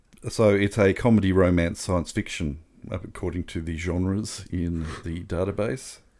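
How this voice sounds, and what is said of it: Strained, fading voice. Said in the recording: “Oh, I'm losing my voice.”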